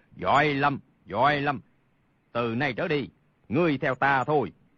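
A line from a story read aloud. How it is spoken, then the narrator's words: Laughing loudly while speaking. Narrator (Vietnamese): Thiết Mộc Chân hô hô cười lớn, nói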